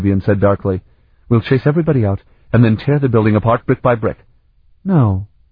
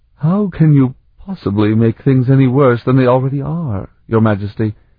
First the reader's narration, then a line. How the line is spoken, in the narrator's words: Oskania asked in a broken voice